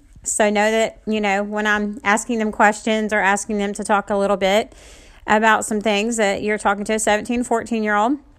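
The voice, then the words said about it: Noticeable accent. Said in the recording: “I know I have an accent.”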